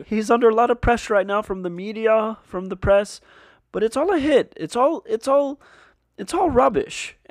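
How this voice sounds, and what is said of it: Impression, voice on verge of crying. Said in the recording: “making a Jordan Peterson impression, you have to be on the verge of crying all the time... He's always on the verge of voice crack crying.”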